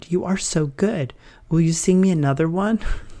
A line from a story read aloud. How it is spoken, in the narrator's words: She seemed entranced, she exclaimed